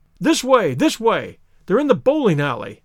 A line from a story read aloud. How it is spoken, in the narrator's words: cried the stranger